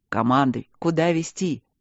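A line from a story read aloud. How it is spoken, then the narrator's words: Shouted amid laughter. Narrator (Russian): крикнул под смех людей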